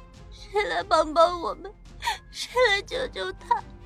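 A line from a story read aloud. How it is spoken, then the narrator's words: Anguished, weakening hoarse shouts. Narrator (Chinese): 痛心疾首，丁禅只能重复的喊着，声音变弱，嗓音嘶哑了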